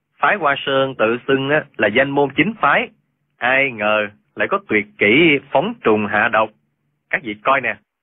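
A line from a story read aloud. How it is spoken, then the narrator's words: Raised voice. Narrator (Vietnamese): cao giọng nói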